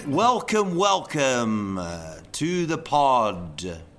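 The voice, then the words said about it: Exaggerated radio announcer voice. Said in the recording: “See, that's my radio voice.”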